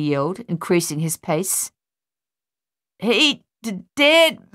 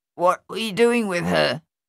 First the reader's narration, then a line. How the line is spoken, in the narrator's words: Thaddeus asked Luther, his voice nasal and clotted